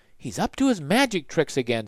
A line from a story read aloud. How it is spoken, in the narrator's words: said Annie, and she sighed